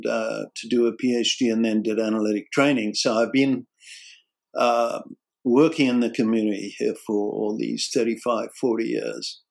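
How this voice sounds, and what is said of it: South African accent. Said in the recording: “where your accent is from ... I'm South African, and I came here in my late 20s, so I thought I'd lost my accent by now, but, you know. ... Not quite. No, not quite.”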